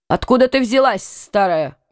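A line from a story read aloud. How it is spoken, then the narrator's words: Rude question. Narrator (Russian): грубо спросил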